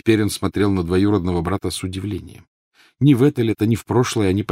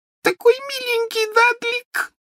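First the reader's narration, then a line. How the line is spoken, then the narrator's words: Sobbing. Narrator (Russian): всхлипывала она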